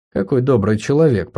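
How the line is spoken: Muttered. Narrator (Russian): пробормотала она

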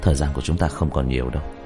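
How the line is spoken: Pressured muttering. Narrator (Vietnamese): Diệp Thiếu Dương hít sâu một hơi, trong lòng áp lực tăng gấp bội, lẩm bẩm

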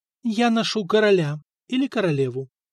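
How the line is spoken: Calm reply. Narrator (Russian): спокойно ответила Нантильда

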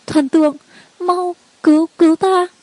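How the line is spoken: Trembling, tearful, choked sobbing. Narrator (Vietnamese): An Nhã thân mình không được run rẩy, nước mắt không ngừng đi xuống, nghẹn ngào nói

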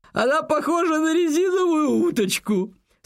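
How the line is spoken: Choking with laughter. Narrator (Russian): С усилием произнес он, едва не задохнувшись от хохота

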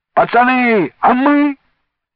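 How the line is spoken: Oldest boy shouting. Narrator (Russian): крикнул самый старший из них, Колька Карпов

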